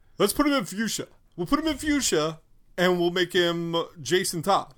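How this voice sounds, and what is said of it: Put-on New York mafioso accent. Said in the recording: “I'm not from New York, so I can't do the New York accent real well ... It sounds like I'm a mafioso”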